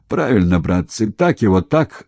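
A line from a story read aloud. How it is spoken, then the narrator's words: Approving shout. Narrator (Russian): одобрил их действия Николаев и закричал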